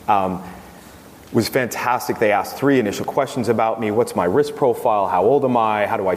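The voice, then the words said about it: American accent. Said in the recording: “I have a U.S. citizenship still. As you can tell by my accent.”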